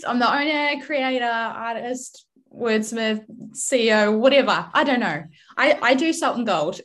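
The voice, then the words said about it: New Zealand accent. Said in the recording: “I am from New Zealand originally. I'm trying really hard to keep my Kiwi accent strong”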